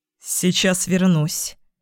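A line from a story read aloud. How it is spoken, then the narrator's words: Suddenly hoarse voice. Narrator (Russian): неожиданно осипшим голосом сказал он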